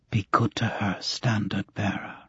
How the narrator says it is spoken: She smiled again, whispered

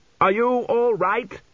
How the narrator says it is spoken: he shouted above the wind

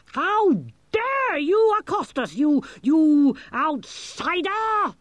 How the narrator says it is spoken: he screamed

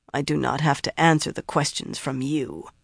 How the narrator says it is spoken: Ispan said sullenly

